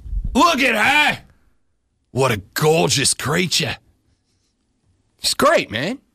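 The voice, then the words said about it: Steve Irwin impression, Australian accent. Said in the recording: “Steve Irwin ... You don't know who the Crocodile Hunter is, mate. ... That's not yelling.”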